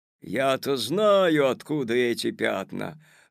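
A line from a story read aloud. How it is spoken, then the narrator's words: Sudden menacing shout. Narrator (Russian): вдруг грозно закричал дядя Федя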